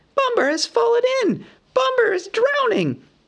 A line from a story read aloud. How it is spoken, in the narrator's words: he cried